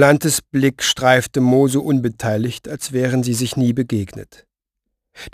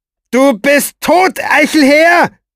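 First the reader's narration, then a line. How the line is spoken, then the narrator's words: Shouted after someone. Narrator (German): schrie er ihm nach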